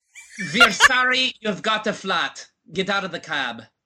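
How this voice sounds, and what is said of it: Put-on German accent. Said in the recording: “That's your German accent.”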